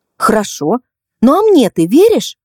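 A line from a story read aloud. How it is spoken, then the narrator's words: Ardent exclamation. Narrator (Russian): с жаром воскликнула Кристина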